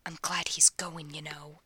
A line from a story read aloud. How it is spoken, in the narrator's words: he says to Ronnie, a vicious whisper